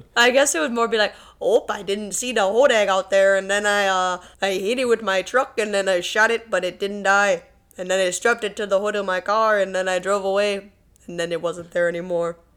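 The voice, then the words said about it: Attempted Wisconsin accent, drifting. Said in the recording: “kind of got a little Native American at the end ... I don't know how to do a Wisconsin accent apparently”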